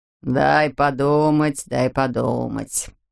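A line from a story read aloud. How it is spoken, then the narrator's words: Drawn-out speech. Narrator (Russian): протянул Говард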